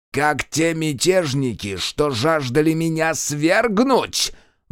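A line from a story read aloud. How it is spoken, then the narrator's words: Furious roar. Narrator (Russian): взревел он, стискивая кулак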